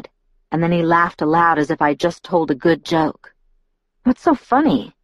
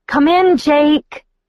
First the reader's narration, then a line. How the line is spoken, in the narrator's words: I shouted